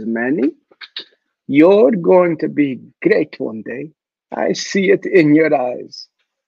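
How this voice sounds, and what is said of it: Thick Greek accent, motherly voice. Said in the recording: “with a mama voice. And she was from Greece. She had this thick accent.”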